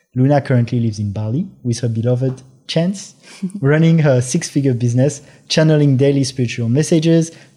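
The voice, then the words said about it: French accent. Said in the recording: “Your accent is so amazing. ... your Chance, your beloved, is French too”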